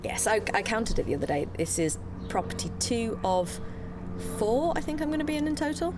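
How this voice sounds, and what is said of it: British accent. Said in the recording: “I sounded very British then, didn't I? ... Yes, well, you are British.”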